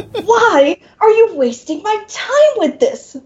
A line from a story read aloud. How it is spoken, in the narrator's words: the demon snarls